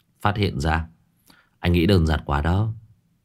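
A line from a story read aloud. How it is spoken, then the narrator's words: Tongue click, soft laugh. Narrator (Vietnamese): Số 6 tặc lưỡi khẽ cười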